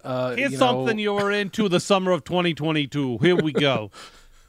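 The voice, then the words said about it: Imitated weird New York accent. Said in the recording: “Does he sound like that? They gave him like yeah, a weird New York accent? ... Yeah, he's got this accent”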